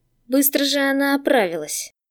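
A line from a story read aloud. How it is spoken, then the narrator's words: Hiss. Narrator (Russian): прошипел бывший узник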